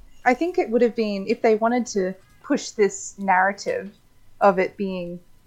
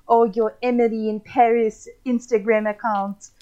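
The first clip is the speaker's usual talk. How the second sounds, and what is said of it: Put-on French accent. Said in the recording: “that is my French accent ... alter ego has come back”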